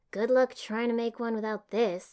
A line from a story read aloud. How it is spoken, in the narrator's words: I said dryly